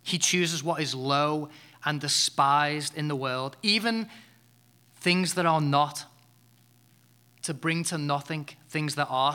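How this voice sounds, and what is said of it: Noticeable foreign accent. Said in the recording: “you probably don't understand what I just said because of my accent”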